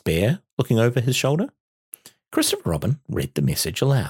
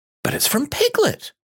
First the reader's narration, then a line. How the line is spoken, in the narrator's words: cried Christopher Robin